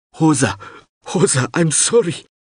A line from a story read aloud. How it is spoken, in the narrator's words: Mip sobbed